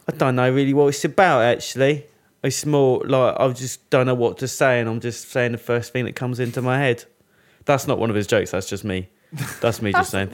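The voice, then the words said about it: Micky Flanagan impression, London accent. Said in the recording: “Nicky Flanagan ... That's quite good though, the accent.”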